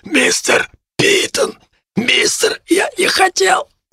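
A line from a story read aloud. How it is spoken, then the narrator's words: Wheezing. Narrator (Russian): захрипел он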